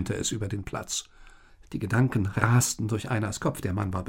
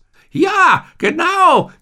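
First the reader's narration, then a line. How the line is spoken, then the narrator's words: Croaking. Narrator (German): krächzte Munin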